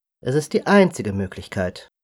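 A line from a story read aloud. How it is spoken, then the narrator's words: Calm continuation. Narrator (German): fuhr der Elf vor Isanaro ruhig fort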